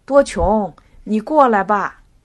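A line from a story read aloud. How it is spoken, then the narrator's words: Calling out again. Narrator (Chinese): 热吉又叫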